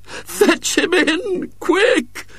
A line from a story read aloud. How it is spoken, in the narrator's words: moaned Mrs